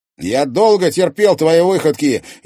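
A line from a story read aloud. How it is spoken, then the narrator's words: Furious roar. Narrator (Russian): яростно взревел он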